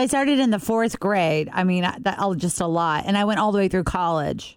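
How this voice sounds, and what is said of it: Usual voice. Nothing is said of it.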